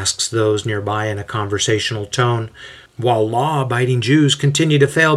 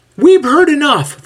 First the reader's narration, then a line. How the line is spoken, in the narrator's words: the voice cries out